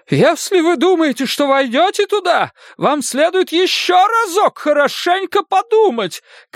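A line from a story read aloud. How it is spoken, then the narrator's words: Mother shouting. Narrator (Russian): кричала его мать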